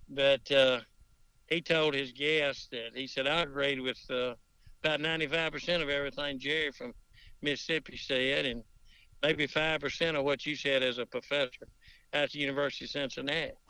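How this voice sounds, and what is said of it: Southern US accent. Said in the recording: “I had ruined the South with my accent ... I like for the molasses to run kind of deep”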